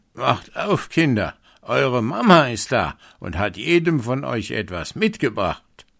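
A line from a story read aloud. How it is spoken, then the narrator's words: Calling out. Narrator (German): rief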